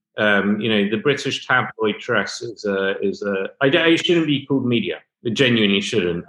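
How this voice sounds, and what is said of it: British accent. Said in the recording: “by your accent, you're familiar with the UK press”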